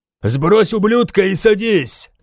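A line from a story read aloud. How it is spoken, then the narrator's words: Shouted. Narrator (Russian): крикнул я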